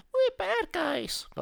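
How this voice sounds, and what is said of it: Imitates another person's voice. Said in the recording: “That's my Margot Robbie impression.”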